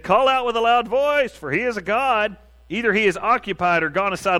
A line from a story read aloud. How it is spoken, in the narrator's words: Elijah mocked them and said